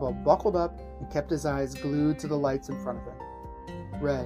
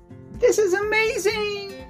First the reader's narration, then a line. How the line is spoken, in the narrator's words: yelled as he whizzed past